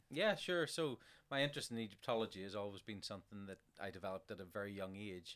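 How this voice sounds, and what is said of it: Slight North Belfast accent. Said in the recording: “you have a slight North Belfast accent.”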